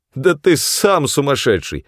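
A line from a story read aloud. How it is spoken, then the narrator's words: Laughing. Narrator (Russian): смеялся я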